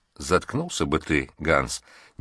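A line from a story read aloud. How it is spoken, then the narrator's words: Quiet man's advice. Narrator (Russian): негромко посоветовал третий мужчина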